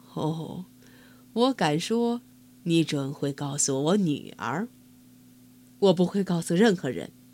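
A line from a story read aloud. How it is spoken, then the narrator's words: Laughing king. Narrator (Chinese): 国王笑了说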